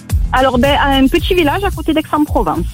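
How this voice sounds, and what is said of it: Southern French Provençal accent. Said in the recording (French): “vous avez un joli accent, ensoleillé.”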